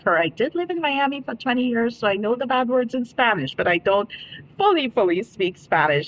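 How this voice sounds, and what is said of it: Caribbean accent from Dominica. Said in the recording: “I am originally from the Caribbean island of Dominica. So if you detect an accent, that's where it's from.”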